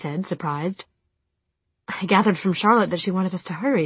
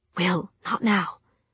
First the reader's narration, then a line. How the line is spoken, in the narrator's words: she said under her breath